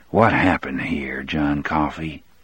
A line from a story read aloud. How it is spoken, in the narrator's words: McGee asked in his low, earnest voice